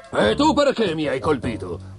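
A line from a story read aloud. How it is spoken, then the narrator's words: Grumbling. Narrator (Italian): brontolò l'altro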